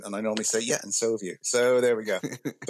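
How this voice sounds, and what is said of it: British West Country accent. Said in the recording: “as you probably noticed from the accent, I'm not, although I live in America, I'm not an American ... you've got an accent ... grew up in the West Country, as it's known in the UK”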